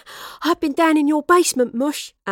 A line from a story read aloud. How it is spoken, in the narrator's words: Astrid panted